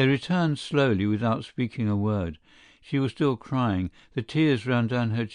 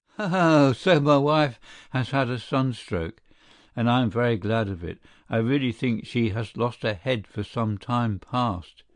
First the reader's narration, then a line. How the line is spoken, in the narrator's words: he began to laugh and exclaimed